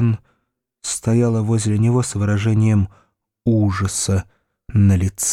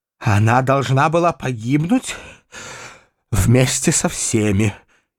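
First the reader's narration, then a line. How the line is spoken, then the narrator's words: Choked, strained voice. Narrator (Russian): сказала она сдавленным голосом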